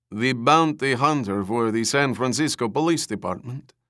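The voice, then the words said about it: Character voice with Slavic accent. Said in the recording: “the man asked with a Slavic accent”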